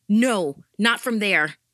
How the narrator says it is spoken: I shouted into the phone

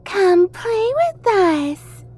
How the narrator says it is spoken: Matilda said in a high, childlike voice

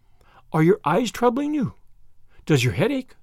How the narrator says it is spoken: queried Anne anxiously

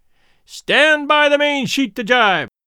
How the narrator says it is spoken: Charlie grinned ... and then shouted

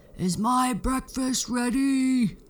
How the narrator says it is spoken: the giant would yell

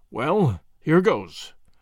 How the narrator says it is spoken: murmured Tommy to himself

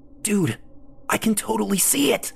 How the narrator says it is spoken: Lee hissed

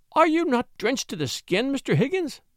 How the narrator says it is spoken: cried Mrs

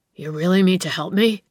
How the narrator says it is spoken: gasped

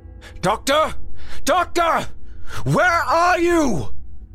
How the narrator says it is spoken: Through his damaged voice transmitters, Grimm shouted

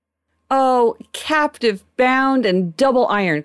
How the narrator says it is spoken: cried the phantom

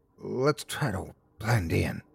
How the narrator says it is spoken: Jessie whispered

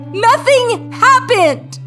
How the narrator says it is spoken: I cried and cried

